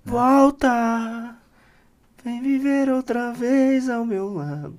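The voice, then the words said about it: Poor sung imitation of a singer. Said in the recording (Portuguese): “tá Caetano Veloso ... foi péssima essa apresentação, essa, essa hum. imitação.”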